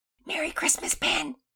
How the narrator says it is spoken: Pearson whisper yelled

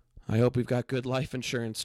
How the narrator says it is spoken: chuckled David, nervously trying to lighten the mood

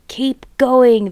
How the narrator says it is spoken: the fat bogus shouted

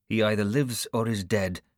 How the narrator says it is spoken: I said curtly

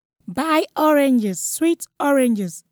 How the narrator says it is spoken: wailed

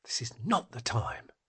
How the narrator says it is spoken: she muttered

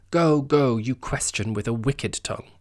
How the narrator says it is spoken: snaps back

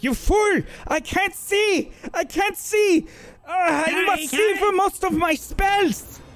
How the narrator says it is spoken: she yells out

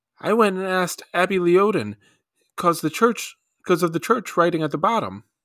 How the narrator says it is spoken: he pointed excitedly

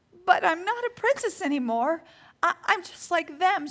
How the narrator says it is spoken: she sobbed

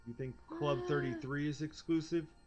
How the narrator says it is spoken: He laughed, but with no humor

